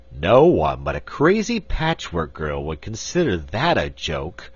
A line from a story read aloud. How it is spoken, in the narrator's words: grumbled Button-Bright